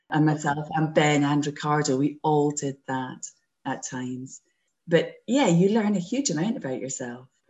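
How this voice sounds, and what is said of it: Scottish accent. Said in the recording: “Scots are notorious for speaking fast ... I was lapsing into my normal Scots speed and this would be challenging if you weren't Scottish”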